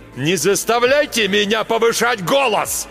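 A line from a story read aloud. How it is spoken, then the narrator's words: Sudden yell. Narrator (Russian): Вдруг заорал Марк Йоган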